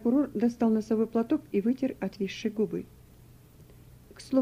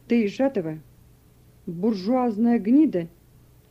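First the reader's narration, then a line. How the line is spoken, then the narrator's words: Furious shout. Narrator (Russian): крикнул прокурор, и его лицо покраснело и покрылось багровыми пятнами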